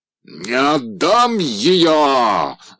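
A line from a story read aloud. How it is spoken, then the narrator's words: Terrifying yell. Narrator (Russian): заорал страшным голосом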